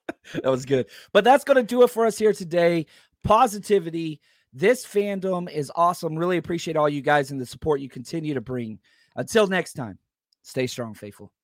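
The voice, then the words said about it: Strained, worn-out voice. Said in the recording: “Sorry about the voice ... I just been talking too much.”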